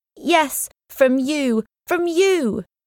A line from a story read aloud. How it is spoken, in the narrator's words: she shouted